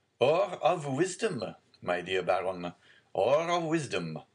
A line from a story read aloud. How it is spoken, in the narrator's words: said Louis XVIII, laughing